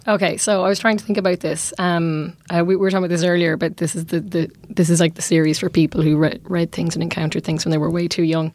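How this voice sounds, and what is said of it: Congested voice with a cold. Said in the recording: “With apologies for my terrible cold.”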